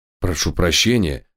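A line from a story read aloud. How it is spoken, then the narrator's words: Strangled voice, old man. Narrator (Russian): сдавленным голосом откликнулся старина Хагерт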